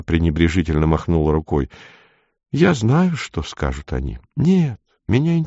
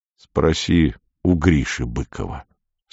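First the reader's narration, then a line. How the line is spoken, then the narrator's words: Calm. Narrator (Russian): спокойно сказал Дауги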